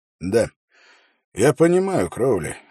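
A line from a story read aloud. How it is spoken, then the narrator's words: Sighing. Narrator (Russian): вздохнул Холт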